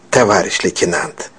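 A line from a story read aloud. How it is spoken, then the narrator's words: Mumbled. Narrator (Russian): промямлил он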